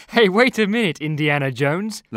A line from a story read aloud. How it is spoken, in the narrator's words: laughs Neil